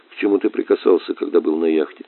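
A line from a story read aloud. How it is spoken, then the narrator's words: Quiet question. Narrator (Russian): тихо спросил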